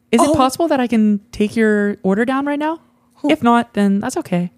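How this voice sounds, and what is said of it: Put-on girl voice. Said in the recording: “do a girl ... a girl voice?”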